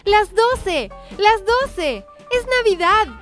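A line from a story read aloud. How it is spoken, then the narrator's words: Child shouting, jumping with joy. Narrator (Spanish): comenzó a gritar el pequeño mientras daba saltos de alegría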